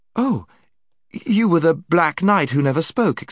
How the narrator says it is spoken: exclaimed Jill

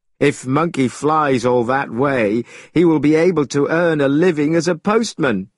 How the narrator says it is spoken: The other students laughed, saying

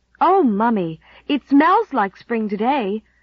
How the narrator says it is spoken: cried Nan, delightedly

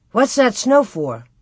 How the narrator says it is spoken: He exclaimed

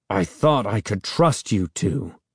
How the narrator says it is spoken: he said, talking through gritted teeth

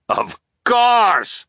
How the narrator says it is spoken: the captain cried

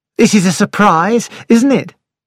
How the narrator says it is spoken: said, cheerfully

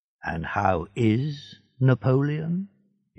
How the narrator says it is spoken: he said quietly

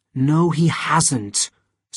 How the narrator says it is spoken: said Etienne in an angry voice

